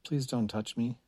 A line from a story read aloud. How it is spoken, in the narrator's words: Chris said quietly